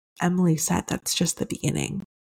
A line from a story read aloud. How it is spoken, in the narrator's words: whispered in my ear